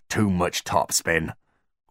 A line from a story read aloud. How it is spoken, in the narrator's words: groaned Mulch